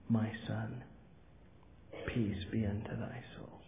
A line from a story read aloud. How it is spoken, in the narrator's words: the voice of inspiration steals along and whispers